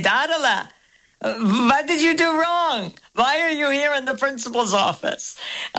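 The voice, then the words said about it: Imitates a grandfather's accent. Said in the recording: “very good Zadie accent”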